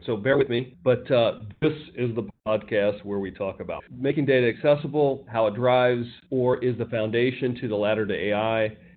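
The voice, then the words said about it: Congested voice from a cold. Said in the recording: “I've got a little bit of a cold today. ... Maybe it's allergies. ... I thought I was going to have an announcer voice,”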